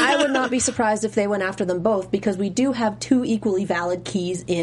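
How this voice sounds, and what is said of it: Usual voice. Nothing is said of it.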